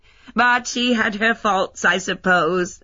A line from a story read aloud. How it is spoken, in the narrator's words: laughed Heather